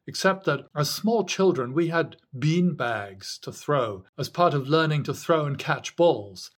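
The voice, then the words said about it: British accent. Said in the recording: “deserved a proper British accent”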